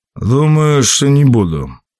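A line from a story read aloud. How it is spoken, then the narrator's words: Gloomy. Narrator (Russian): мрачно ответствовал двойник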